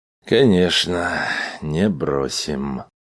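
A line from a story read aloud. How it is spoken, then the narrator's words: Glum confirmation. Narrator (Russian): уныло подтвердил Грегор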